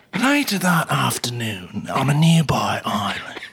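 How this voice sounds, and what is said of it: David Attenborough impression. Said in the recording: “your best David Attenborough ... Oh my God, that's great.”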